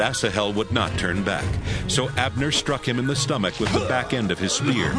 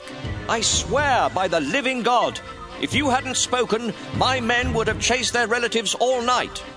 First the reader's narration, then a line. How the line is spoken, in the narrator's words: Joab shouted back